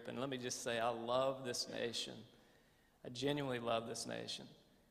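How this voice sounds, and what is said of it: Strong American southern accent. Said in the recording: “the more tired I get, the more my southern accent gets more accented”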